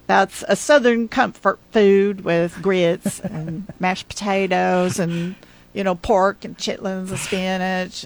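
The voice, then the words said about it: Attempted Southern US accent. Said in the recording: “Good, good try on, on the southern accent”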